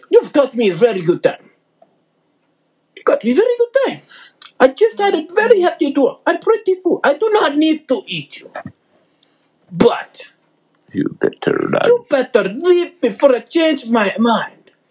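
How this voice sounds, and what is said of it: Put-on Russian accent. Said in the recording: “Why is it Russian? ... Russian is a very good accent for it.”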